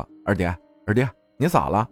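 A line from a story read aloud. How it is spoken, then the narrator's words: Calling out. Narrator (Chinese): 叫着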